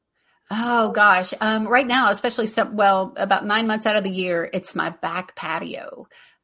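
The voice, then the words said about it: Southern American accent. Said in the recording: “I just like saying stutter with that Southern accent.”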